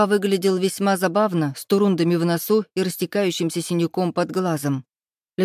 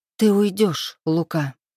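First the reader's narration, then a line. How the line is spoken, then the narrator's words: Calm, firm, detached. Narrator (Russian): Спокойно, твердо и отчужденно произнесла я, пусть и хотелось кричать на него во все горло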